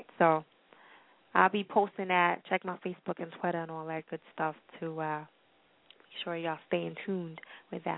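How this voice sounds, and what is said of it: Voice giving out. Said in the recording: “I'm losing my voice.”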